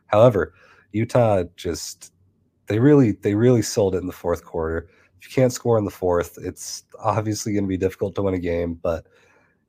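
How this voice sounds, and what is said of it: Sick, unwell-sounding voice. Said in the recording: “obviously I'm very sick. You can hear it in my voice.”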